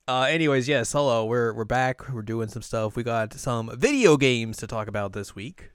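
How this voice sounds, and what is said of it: Usual voice. Nothing is said of it.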